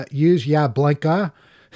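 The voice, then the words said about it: Boston accent. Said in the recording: “meaning use your blinker in a Boston accent.”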